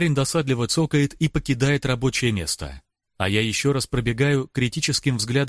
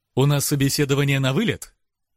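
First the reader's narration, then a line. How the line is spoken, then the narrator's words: Cheerful smirk. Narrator (Russian): весело ухмыляется смельчак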